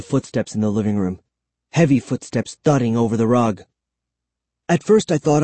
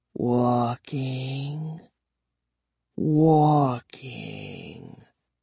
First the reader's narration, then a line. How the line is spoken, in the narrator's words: I whispered